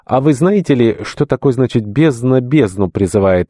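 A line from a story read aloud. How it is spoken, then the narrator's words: Snapping. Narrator (Russian): огрызнулся Варнава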